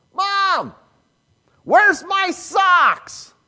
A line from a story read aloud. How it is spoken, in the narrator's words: when I was a kid, I'd scream